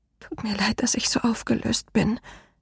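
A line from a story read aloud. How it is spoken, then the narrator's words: Choked whisper. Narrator (German): flüsterte mit erstickter Stimme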